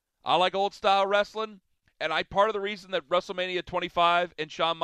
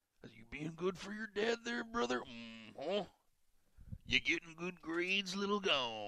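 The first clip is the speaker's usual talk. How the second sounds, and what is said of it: Bruce Pritchard imitating Macho Man. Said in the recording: “doing an impression of Bruce Pritchard doing an impression of Macho Man”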